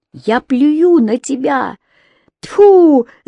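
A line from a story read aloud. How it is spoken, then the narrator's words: Frenzied screaming. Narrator (Russian): закричала Рони в исступлении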